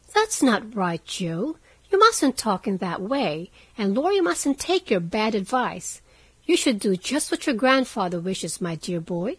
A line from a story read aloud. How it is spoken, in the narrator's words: said Meg in her most maternal tone